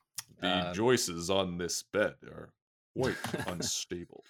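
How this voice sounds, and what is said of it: Poor impression of a TV character. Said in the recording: “Nick Offerman as Ron Swanson. ... That was a terrible impression.”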